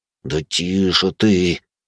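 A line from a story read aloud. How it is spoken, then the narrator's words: Hissed through teeth. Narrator (Russian): Сквозь зубы прошипел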